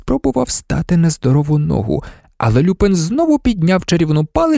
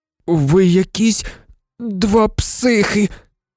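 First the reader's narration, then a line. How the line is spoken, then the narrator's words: Trembling voice. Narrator (Ukrainian): тремтячим голосом озвався Рон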